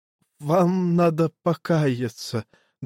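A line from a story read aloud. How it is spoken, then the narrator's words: Trembling voice. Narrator (Russian): дрожащим голосом сказал Петер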